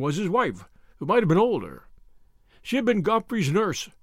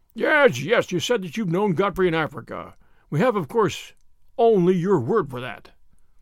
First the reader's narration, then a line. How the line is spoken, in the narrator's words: he said